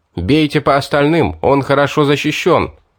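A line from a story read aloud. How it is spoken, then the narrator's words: Shouting. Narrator (Russian): я крикнул своим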